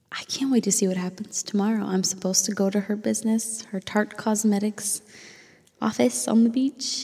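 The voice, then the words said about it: Raspy, tired voice. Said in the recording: “I'm exhausted. So exhausted. You can probably hear it in my raspy voice.”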